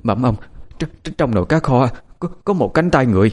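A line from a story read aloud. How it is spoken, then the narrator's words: Frightened stammering. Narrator (Vietnamese): Bà phụ bếp lắp ba lắp bắp mà nói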